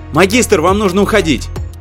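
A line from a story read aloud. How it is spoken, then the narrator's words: Urgent shout. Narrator (Russian): крикнул Викали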